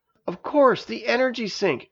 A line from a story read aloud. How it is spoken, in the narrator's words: exclaimed Janice